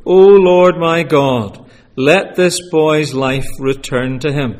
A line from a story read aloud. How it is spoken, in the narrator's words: cried to the Lord